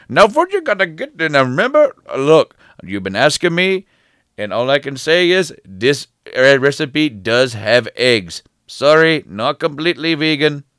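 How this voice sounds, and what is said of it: Imitates another person's voice. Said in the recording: “doing the voice ... I'm just trying to emulate him”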